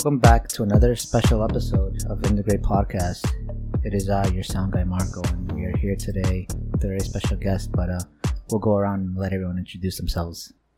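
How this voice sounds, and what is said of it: Flat monotone delivery. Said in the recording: “Why are you so monotone today?”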